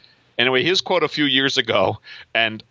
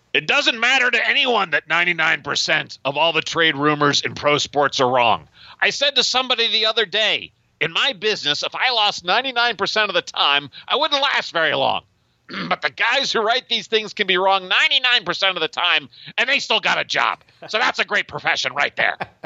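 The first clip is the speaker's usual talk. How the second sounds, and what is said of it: Gruff, angry Stan Van Gundy impression. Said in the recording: “just try to imagine this in a gruff, angry Stan Van Gundy voice ... I'm going to try to do that voice ... Terrible. Terrible”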